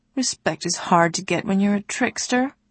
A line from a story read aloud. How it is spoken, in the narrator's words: the god said mournfully